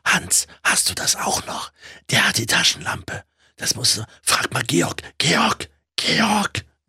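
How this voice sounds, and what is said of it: Loud whisper. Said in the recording (German): “Flüstern, so lautes Flüstern ... Das laute Flüstern.”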